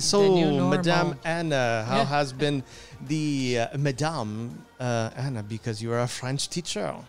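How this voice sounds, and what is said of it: Put-on French accent. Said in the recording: “I don't not know where I got this accent of mine ... I do accents ... I can do a kick-ass accent. You will fool anybody.”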